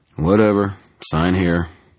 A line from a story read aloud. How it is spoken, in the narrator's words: said in a bored tone